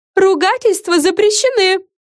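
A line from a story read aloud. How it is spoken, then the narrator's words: Wailed. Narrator (Russian): взвыла Френ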